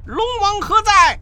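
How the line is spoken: Calling out. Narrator (Chinese): 孙大圣回头叫道

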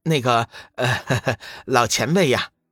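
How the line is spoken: Laughing. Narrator (Chinese): 志远在一旁笑道

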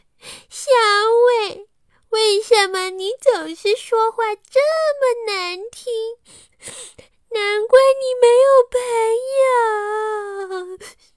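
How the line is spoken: Loud crying. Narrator (Chinese): 他大声的哭着说

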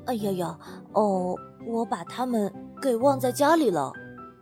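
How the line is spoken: Muttering. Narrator (Chinese): 嘴里还嘀咕着

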